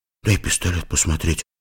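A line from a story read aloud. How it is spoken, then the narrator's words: Whispered request. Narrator (Russian): шепотом попросил сбоку Лешка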